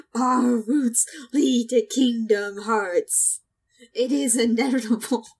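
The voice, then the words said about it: Video game villain character voice. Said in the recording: “in an Ansem voice. ... can I do an Ansem voice?”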